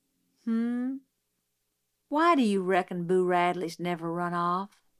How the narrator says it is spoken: Dill sighed a long sigh

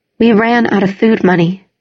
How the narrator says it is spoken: she said evenly

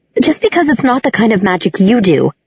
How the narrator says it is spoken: Clary began crossly

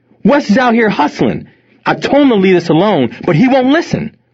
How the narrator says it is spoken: Tony yelled back

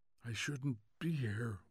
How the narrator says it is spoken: whispered Montag, almost to himself

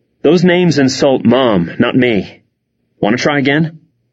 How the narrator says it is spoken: Hannah gasped

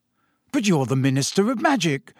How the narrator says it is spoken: said Harry eagerly

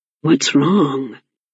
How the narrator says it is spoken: murmured, leaning close

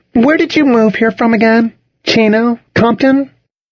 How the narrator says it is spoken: Charlotte said brightly

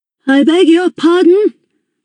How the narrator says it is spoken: I shouted

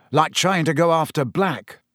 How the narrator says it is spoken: said Ron sharply

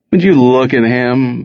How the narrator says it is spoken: Bobster groaned

